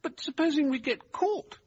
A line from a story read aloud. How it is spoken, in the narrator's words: Derbyshire asked anxiously